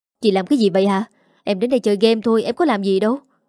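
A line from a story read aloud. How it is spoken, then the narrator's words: Embarrassed child shouting. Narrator (Vietnamese): Ngọc Diệp xấu hổ, còn bé quát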